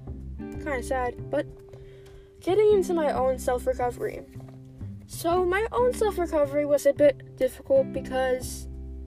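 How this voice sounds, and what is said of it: Stuffy, congested voice, losing voice. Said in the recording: “I'm sick right now. And you can tell that I sound stuffy ... I'm also losing my voice, actually”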